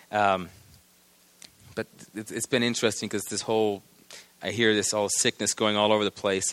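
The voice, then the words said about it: Strained, failing hoarse voice. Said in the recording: “my voice is about to go away ... knowing my voice is struggling ... this low throat thing just stays here”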